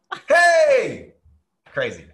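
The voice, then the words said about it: Excited screaming into the mic. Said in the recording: “I'm screaming in the mic. ... I'm very excited.”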